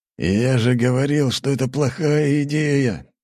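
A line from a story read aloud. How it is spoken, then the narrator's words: Angry growl. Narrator (Russian): Тут же зарычал Бергамотов на своего подельника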